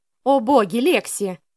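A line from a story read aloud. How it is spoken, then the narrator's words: Deliberately loud. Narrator (Russian): нарочито громко произнесла Селена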